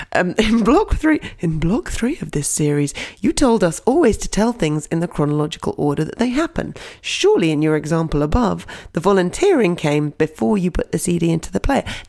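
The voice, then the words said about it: Impression of another person's voice. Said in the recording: “this is my impression of you”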